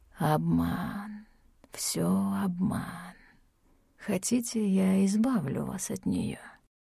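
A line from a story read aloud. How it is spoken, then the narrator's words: Hissing voice. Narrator (Russian): Его голос был похож на шипение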